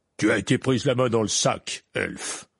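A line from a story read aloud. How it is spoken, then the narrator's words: Growling. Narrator (French): gronda M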